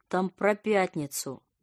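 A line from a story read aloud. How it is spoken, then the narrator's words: Slurred mumble. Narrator (Russian): нечленораздельно пробормотала она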